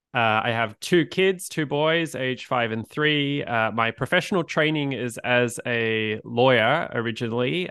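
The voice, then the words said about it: Australian accent. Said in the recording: “as you could probably tell by my accent, I'm originally from Australia”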